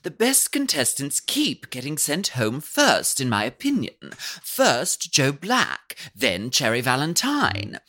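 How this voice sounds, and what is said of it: Put-on British accent. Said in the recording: “you're the reading in a British accent”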